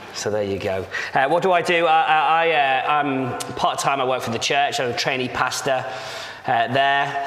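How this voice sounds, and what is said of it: Slight northern English accent. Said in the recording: “as you can probably tell by the accent. It's a slight northern accent, as I grew up next to Liverpool”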